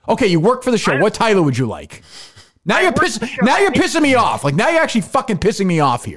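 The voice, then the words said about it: Angry screaming rant. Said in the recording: “peak Kirk Minahan rant. That is screaming, losing your mind”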